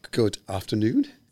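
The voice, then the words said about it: Posh English accent. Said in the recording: “posh accent”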